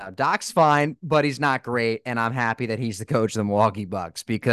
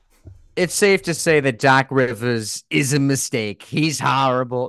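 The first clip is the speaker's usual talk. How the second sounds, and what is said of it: Imitates another person's voice. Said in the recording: “in a Brett Brown voice.”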